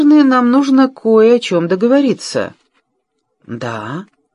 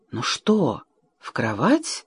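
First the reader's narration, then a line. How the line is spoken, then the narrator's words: Whisper. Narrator (Russian): прошептала она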